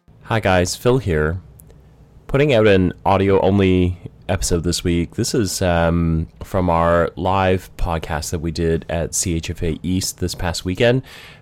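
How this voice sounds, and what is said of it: Sick-sounding, slightly funny voice. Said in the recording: “hear it from my voice. I wound up getting sick at the show, so I sound a little funny.”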